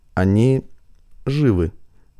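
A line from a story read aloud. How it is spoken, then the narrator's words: Soft. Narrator (Russian): сказал Инфарх мягко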